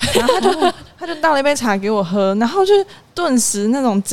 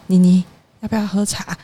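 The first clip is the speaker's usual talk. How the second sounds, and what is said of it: Whispered, quiet speech. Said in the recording (Chinese): “小小声的说”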